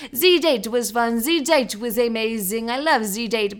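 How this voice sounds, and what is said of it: Put-on French accent. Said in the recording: “this weird French accent ... my new little accent”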